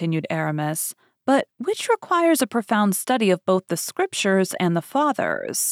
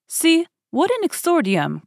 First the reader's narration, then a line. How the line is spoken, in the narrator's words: cried the Jesuit